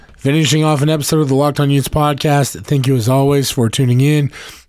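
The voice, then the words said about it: Strained, failing voice. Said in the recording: “My voice is starting to fail me.”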